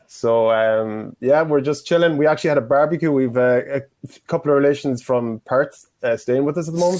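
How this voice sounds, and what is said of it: Irish accent. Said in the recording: “What's your accent? ... It's Irish. Well, I'm Irish.”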